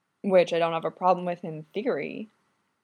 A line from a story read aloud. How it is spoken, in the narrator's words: replies sullenly